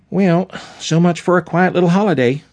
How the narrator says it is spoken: sighed

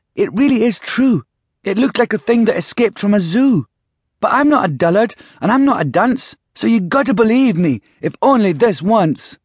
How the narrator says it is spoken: she cried

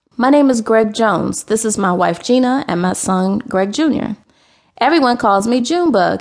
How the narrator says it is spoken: he said

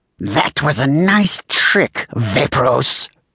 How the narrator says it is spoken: Saywolf spat

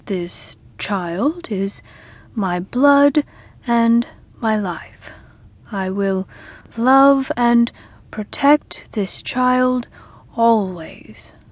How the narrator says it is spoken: Sam said slowly

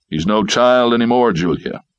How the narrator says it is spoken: he answered

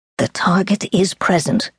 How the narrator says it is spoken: Steel whispered

